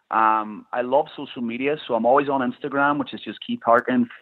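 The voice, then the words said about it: Irish accent. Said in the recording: “his Irish accent”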